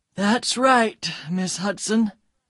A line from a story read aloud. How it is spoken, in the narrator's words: said Detective Keat quietly